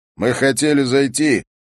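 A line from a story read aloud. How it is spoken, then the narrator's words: Overly loud. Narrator (Russian): Харри заметил, что говорит очень громко, как будто у мальчика были проблемы еще и со слухом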